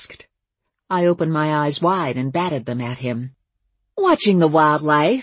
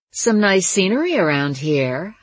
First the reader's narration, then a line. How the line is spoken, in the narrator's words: I purred